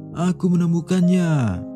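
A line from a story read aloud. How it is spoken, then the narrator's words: Distant shout. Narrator (Indonesian): seseorang berteriak dari kejauhan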